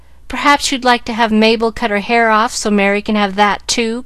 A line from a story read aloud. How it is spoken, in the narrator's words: cried Susy, with whom hair was a tender point